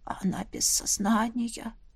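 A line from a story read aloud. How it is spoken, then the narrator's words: Quiet. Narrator (Russian): тихо произнес барон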